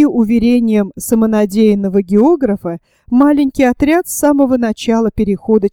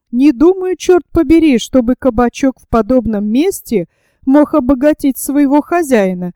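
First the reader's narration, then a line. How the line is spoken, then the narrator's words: Exclaimed. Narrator (Russian): воскликнул Паганель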